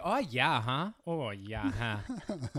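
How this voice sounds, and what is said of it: Exaggerated Minnesotan accent. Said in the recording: “me and my friends loved fucking with the accents ... for some reason it comes off as Minnesota”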